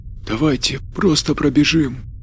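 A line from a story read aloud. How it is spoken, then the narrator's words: Barely audible. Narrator (Russian): едва слышно произнес Бернардо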